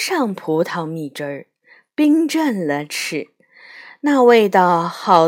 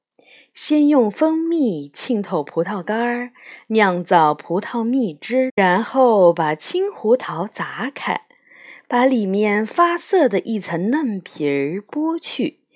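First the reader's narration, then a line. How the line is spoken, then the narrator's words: Smiling fairy. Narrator (Chinese): 福库伦仙女微笑着说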